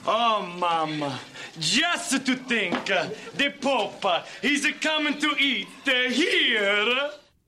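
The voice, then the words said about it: Terrible exaggerated fake Italian accent. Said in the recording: “doing basically the worst Italian accent in the history of the world”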